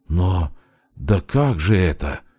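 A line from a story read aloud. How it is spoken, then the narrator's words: Barely audible breath. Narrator (Russian): выдохнул он еле слышно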